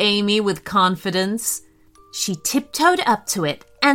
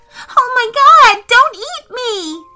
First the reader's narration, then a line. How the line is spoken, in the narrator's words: she said, wailing